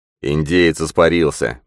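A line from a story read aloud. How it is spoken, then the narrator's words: Grumbling. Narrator (Russian): проворчал сержант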